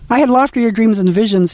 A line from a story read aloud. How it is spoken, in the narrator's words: said